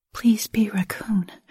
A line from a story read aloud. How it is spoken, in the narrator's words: I whispered under my breath